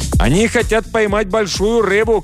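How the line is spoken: Shouting. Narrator (Russian): крикнул нам Джоао

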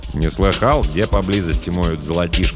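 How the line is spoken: Plain. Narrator (Russian): спросил Джим

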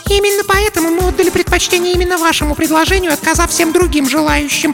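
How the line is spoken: Squeaking. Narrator (Russian): пискнула Марлис

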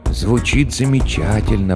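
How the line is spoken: Whispering. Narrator (Russian): прошептал Хендрат

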